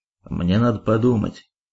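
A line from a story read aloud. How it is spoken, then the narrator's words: Gloomy. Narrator (Russian): мрачно уведомил Фитюк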